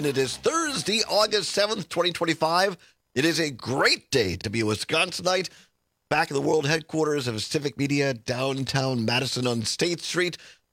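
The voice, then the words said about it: Hoarse, croaky voice. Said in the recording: “a frog in my throat ... I'm not the only one who's losing my voice.”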